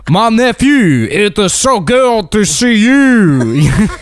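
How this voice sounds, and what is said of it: Bad imitation of a Cajun accent. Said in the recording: “Cajun uncle ... Two people with the worst accents.”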